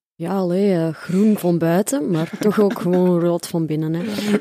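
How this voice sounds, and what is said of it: Put-on Belgian Dutch accent. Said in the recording (Dutch): “dan met zo'n Belgisch accent, maar dat kan ik niet ... Misschien kan ... dat even doen.”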